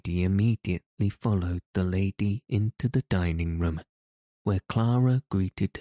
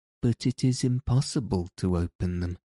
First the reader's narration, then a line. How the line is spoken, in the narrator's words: Heidi said sadly